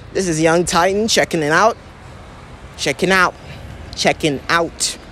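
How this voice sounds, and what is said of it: Fake accent. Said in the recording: “With my fake accent”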